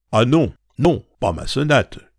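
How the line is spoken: Shouting. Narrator (French): cria Madame Verdurin

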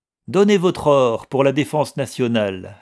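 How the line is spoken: Sneering laugh. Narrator (French): ricana Guiret

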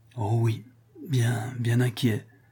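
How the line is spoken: Stammered, near tears. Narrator (French): balbutia Rodolphe, toujours immobile, et dont le cœur se fondait en larmes

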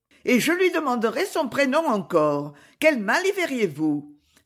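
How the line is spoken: Exclaiming. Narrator (French): s'écria Madame Beausire

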